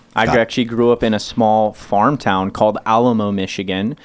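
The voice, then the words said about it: Midwestern accent with slight Southern twang. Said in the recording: “I hear an accent of some sort... I got a unique accent because I was born in Southwest Michigan... picked up a little Southern twang”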